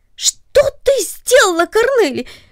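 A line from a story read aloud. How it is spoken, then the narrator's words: Sudden surprised cry. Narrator (Russian): вскрикнул он от внезапного удивления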